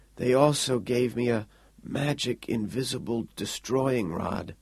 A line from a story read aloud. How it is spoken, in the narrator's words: Quayle mumbled, eyes totally shut now